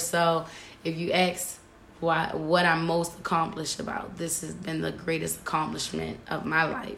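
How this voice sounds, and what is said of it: Raspy, hoarse voice. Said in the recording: “Voice a little raspy. ... I don't know what's going on with my voice today ... are you sick? ... my voice was just gone”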